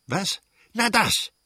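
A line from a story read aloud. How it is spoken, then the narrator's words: Prince shouting. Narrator (German): schrie der Fürst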